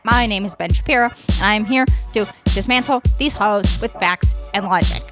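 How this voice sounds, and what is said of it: Nasal, read-off-paper impression voice. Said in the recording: “do a celebrity impression ... You just kind of talk in a nasally voice, like you stuff up your nose, and then you talk like you're reading something written off a paper.”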